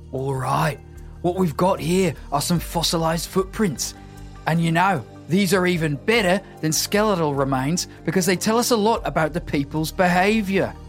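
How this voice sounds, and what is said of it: Put-on Australian accent. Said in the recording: “our award-winning Australian accents were going to make a comeback ... what accent I would get to do”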